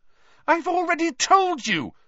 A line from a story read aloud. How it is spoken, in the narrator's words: Hermione said very angrily